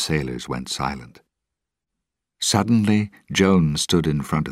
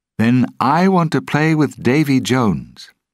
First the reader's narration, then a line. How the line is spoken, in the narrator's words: Will said loudly